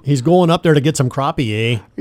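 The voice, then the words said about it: Put-on Minnesota accent. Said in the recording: “He's got to work on his Minnesota accent there. ... He doesn't have one quite as good as you.”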